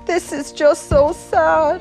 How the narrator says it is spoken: Her friends howled

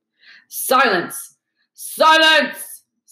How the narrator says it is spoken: Snape roared

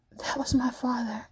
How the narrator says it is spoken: Kaya whispers

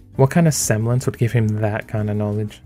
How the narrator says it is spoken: Weiss scoff

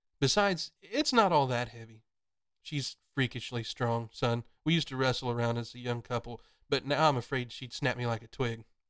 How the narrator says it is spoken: Jack laughed

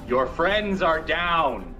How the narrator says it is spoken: I shout

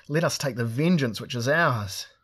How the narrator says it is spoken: cried Drinage Barra exultantly

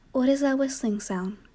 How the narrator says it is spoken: asked

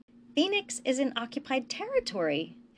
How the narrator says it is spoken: Hesh exclaimed

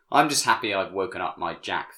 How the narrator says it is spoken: Phyllis said

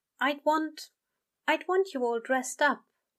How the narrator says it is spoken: he said gently, not shy but modest

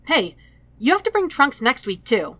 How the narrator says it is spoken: all at once, he blurts

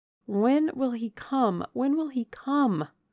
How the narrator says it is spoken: I cried inwardly

